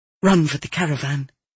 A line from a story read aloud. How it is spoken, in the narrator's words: I whispered to her